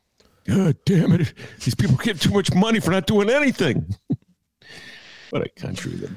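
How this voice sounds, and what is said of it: Mocking impression of a right-winger. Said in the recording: “Your impression of the right wingers sounded a lot like your impression of the boomers”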